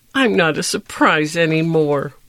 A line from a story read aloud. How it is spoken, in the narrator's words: whimpered Gift